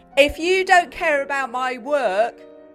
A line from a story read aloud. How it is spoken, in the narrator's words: shouted Kirsty Janet